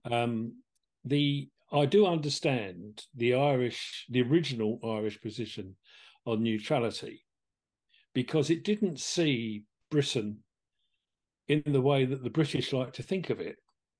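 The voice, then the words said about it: English accent. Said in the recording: “I hail from England, as you may have noticed in my accent”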